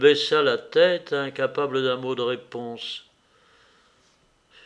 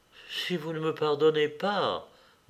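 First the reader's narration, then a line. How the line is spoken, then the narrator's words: Murmured. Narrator (French): murmura-t-il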